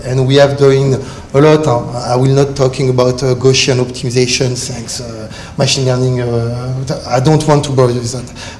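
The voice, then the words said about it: French accent. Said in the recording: “With my French accent”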